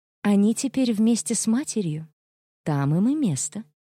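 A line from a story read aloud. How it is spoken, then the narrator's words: Calm, matter-of-fact tone. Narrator (Russian): совершенно спокойно, будничным тоном произнесла она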